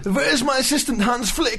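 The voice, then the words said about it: An impression of someone. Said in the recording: “Great impression.”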